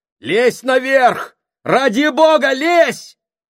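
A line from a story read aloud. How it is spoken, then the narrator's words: Shouting. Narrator (Russian): Морзе закричал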